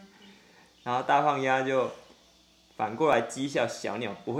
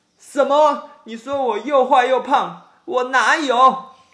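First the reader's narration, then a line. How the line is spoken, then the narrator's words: Angry shrieking. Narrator (Chinese): 小鸟被水花溅到，一边尖叫一边生气的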